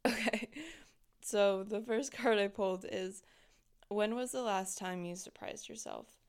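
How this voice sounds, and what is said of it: Rough, worn-out voice. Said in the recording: “I sound like I'm dying. ... I sound terrible right now.”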